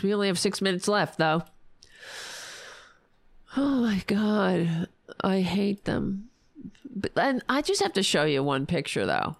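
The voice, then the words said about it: Hoarse, strained, failing voice. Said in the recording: “I'm losing my voice. I'm losing my voice.”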